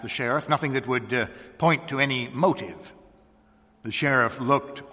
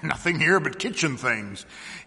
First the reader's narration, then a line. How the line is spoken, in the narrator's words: he said with a little laugh for the insignificance of kitchen things